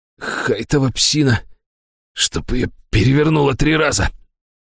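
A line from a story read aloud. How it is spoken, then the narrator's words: Hoarse voice. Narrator (Russian): хрипло произнес Министрель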